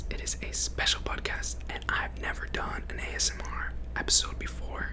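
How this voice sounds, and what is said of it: Whispering close to the microphone. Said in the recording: “I am currently whispering into my microphone, and the gain is turned all the way up”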